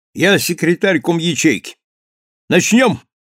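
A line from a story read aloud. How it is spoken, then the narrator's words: Sudden booming shout. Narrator (Russian): вдруг крикнул зычно, как на палубе в шторм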